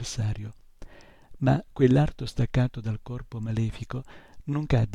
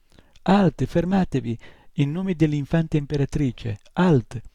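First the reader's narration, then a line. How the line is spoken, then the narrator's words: Voice drowned by fighting noise. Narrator (Italian): la sua voce si perse nell'urlo e nello strepito dei due combattenti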